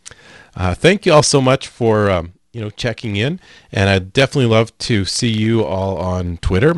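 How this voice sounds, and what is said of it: Raspy tired voice. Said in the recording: “You guys can probably tell by my raspy voice”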